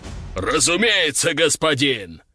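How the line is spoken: Deep bass. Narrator (Russian): пробасил унизитель

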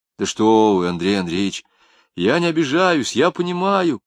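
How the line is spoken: Sincere fervent exclamation. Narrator (Russian): Искренне и горячо воскликнул Акошкин

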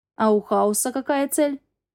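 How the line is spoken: Plain. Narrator (Russian): спросила я

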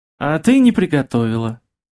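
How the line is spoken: Gentle prompting. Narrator (Russian): ласково подсказал он

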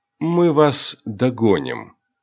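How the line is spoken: Purring. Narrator (Russian): мурлыкнул Рионар

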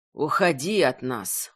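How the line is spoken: Tired request. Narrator (Russian): устало попросил он

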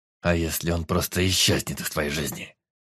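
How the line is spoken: Through gritted teeth. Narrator (Russian): процедил Эдмир

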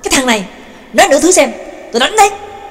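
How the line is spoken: Angry shout. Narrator (Vietnamese): Trương Lập giận dữ quát lên

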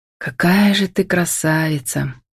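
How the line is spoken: Whispering. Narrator (Russian): прошептал Демьяновский

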